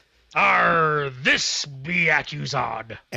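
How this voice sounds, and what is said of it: Pirate voice. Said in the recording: “talk like a pirate ... pirate intro”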